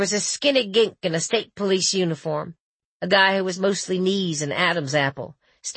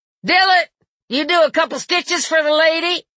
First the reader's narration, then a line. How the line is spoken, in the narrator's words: He half-turned and called out